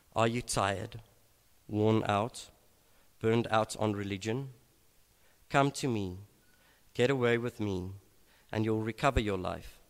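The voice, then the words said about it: Slow, deliberate reading. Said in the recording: “read this slowly”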